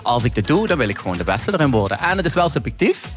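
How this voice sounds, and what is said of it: Limburg Dutch accent. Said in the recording (Dutch): “Heb je dat Limburgse accent dan nog?”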